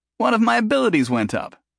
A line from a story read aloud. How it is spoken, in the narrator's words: Jason said, happily